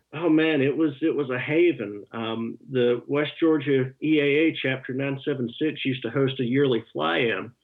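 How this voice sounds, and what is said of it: Georgia accent. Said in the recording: “you and I have the same, more or less the same accent. I'm from Atlanta, and you grew up in West Georgia”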